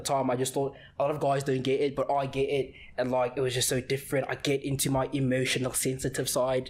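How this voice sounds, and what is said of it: Put-on accent imitating another person. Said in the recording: “Why that accent? ... not at all how you sound like ... whenever I impersonate someone I just like immediately go into an exit”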